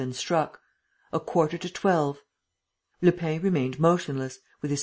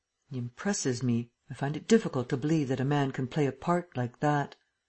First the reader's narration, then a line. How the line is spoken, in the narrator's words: The emperor muttered